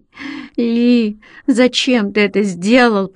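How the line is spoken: Moaning. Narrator (Russian): простонала она

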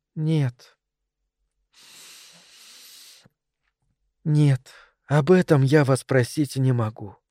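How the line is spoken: Sad. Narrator (Russian): печально сказала она

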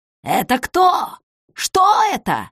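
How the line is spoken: Shouting. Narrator (Russian): закричал он

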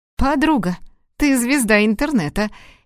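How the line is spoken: Cheerful. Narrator (Russian): весело заявила она

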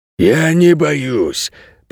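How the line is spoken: Hiss. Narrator (Russian): прошипел Ричи

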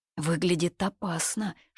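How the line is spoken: Whisper. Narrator (Russian): шепнула Ми Бинсянь

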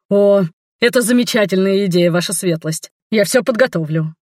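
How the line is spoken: Added in parting. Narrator (Russian): добавив напоследок

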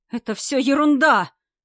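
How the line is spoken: Young man shouting. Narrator (Russian): Молодой человек все-таки не сдержался и закричал

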